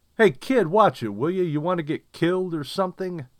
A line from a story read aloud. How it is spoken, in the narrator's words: yelled, though I didn't mean to